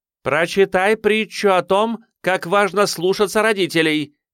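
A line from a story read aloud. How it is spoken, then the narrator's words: Mother calling out after. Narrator (Russian): крикнула мать вслед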